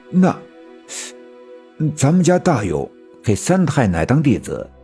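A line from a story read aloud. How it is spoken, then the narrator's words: Slow. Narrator (Chinese): 我奶奶慢慢的说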